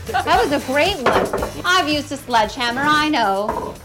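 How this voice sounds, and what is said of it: Old-fashioned 1930s lady voice. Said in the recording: “talking like a lady from the 1930s”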